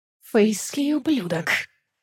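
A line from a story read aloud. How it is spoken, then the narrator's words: Prince's hiss. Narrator (Russian): прошипел валкский принц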